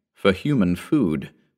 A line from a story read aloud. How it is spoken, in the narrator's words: the headman whispered